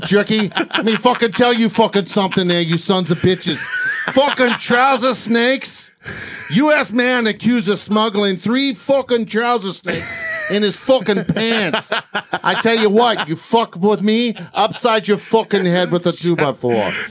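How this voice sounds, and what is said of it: Exaggerated put-on New York accent. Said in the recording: “Did you read it with a New York accent? ... Oh, yes, please read it with the New York accent. ... got to get a little guinea going on here. ... That's Jersey. ... That's the worst Joe Pesci I've ever heard.”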